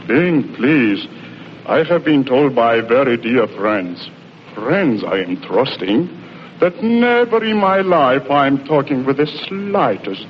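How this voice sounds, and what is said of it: Russian accent. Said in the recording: “you've practically completely lost your Russian accent ... when he says, I have a dialect?”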